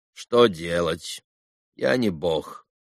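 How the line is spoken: Casual yet imposing doctor. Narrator (Russian): небрежным, хотя и привычно внушительным голосом ответил доктор

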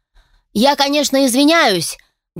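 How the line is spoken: Loud magically amplified address. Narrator (Russian): Громко, наверняка усилив голос магии, обратился к присутствующим некромант

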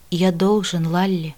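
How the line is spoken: Quiet, king. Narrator (Russian): король тихо произнес

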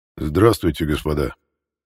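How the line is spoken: Beautiful trained bass voice. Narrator (Russian): Своим красивым, хорошо поставленным басом сказал император

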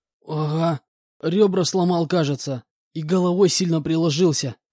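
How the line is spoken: Groaning. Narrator (Russian): простонал он мне в ответ

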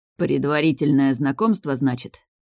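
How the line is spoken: Growled. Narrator (Russian): прорычал стратег

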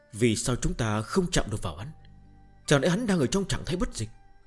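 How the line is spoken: Pensive muttering. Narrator (Vietnamese): Tần Mục trầm ngâm, lẩm bẩm nói

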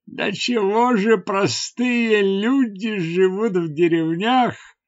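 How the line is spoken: Exclamation. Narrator (Russian): воскликнул он

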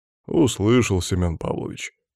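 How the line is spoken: Sad reply. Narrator (Russian): печально ответил Иван

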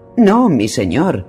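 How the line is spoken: Urgent exclamation. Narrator (Spanish): exclamó una voz apremiante

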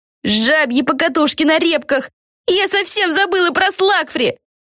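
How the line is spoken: Shouting. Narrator (Russian): закричала Пегги

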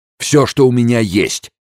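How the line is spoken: Shouted. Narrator (Russian): крикнул Энрико

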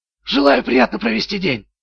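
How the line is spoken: Whisper. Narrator (Russian): прошептал

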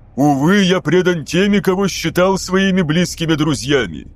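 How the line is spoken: Dramatic exclamation. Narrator (Russian): воскликнул Фулгрим

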